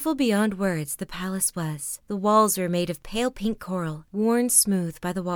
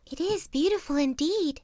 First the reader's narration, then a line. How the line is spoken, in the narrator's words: gasped the little fish, who was very tired with trying to swim as fast as the rest